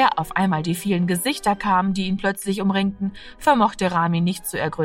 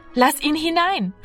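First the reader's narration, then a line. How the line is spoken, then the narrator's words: Calling out. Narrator (German): rief Martina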